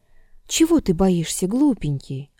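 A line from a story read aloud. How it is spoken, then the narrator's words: Gentle, affectionate question. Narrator (Russian): ласково спросил Гриша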